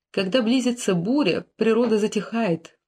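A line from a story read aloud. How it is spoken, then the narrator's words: Sad queen. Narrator (Russian): королева Екатерина лишь грустно покачала головой и ответила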